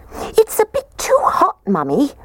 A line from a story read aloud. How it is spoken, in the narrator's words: The little baby bear squeaked